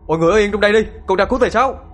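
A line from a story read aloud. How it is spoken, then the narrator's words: Interrupting shout. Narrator (Vietnamese): Không đợi thầy nói hết câu, Thiên đã quát lên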